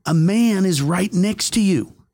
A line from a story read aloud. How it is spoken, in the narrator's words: She could hear that I was worried, and as I kept shouting, I said